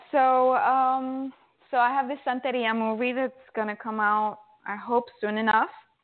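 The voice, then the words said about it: Spanish accent. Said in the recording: “I love your Spanish accent.”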